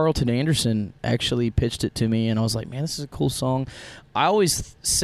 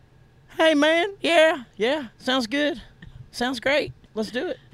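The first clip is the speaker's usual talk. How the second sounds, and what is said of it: Imitates another person's voice. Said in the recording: “terrible Kevin Fowler impression”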